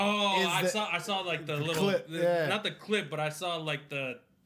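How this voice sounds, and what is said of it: Usual voice. Nothing is said of it.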